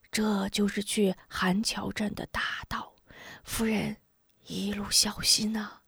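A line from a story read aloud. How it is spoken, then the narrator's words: Whispered. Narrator (Chinese): 刘乡老悄声道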